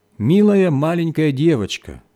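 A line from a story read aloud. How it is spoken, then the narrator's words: Plain. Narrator (Russian): сказал нищий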